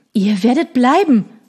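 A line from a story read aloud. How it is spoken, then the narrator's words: Called out. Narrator (German): rief er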